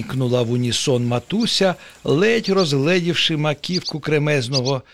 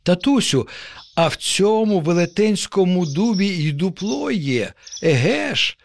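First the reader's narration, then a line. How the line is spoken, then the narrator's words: Joyful child exclaiming. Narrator (Ukrainian): радісно вигукнув нащадок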